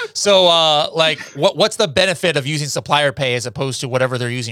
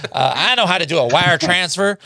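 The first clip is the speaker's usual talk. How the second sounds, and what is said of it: Imitates another person's accent. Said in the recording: “I'm trying to do the Tim's accent”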